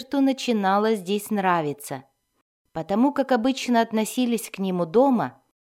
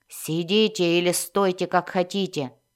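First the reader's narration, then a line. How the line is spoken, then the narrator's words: Growling. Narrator (Russian): зарычал один из наставников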